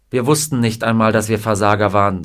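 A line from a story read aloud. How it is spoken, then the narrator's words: Plain. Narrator (German): sagte Scotty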